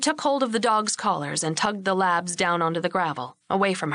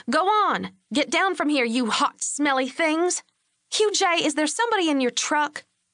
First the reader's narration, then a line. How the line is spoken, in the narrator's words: said, irritably